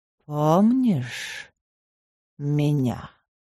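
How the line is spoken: Quiet. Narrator (Russian): тихо произнес темный

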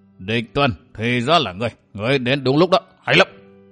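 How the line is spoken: Middle-aged man, very strange voice. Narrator (Vietnamese): Một người tuổi trạc tứ tuần nói với giọng rất quái dị

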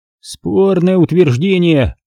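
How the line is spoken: Grumbling. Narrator (Russian): проворчал Шамиль

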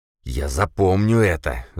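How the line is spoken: Hoarse wheeze. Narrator (Russian): захрипел мажор

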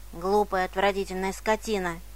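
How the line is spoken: Grumbling. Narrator (Russian): проворчал он

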